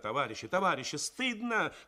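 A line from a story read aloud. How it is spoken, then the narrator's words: Shouting. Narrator (Russian): кричала Тоня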